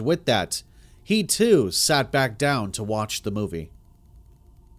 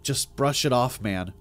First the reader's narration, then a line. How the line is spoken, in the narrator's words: I muttered to myself